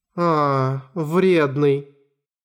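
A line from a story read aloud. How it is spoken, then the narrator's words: Indifferent drawl. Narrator (Russian): Равнодушно протянула Акари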